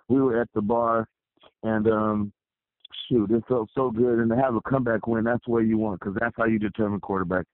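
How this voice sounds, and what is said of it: Hoarse voice, breaking up. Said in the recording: “I have no voice. As you can hear, my voice is breaking up.”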